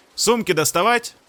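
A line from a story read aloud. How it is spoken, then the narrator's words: Shouting. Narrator (Russian): прокричал капитану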